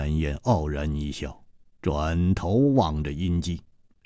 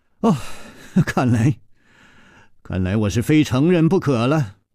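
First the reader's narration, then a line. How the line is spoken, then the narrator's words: Sighing. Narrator (Chinese): 楚留香叹了一口气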